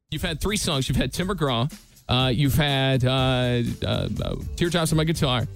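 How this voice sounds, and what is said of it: Old-school radio announcer voice. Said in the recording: “you're going to hear old school ... radio voice on this... It does not sound like ... at all.”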